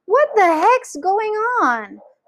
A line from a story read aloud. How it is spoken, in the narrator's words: cried Grandma Josephine, waking up suddenly